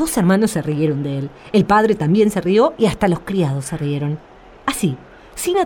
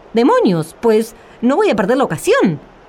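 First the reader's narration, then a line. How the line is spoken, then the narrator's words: Exclaimed. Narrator (Spanish): exclamó Juan el Bobo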